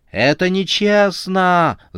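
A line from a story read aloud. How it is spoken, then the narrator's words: Yelling, blowing bubbles. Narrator (Russian): заорала она, пуская пузыри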